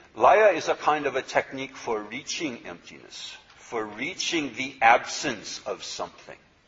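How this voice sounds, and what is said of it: Speaks with a noticeable accent. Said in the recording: “my funny accent”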